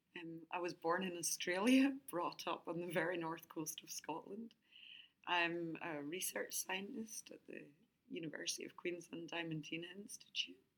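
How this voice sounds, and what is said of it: Scottish accent. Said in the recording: “tune into the Scottish accent”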